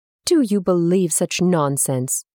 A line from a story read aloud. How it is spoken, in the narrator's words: he scoffed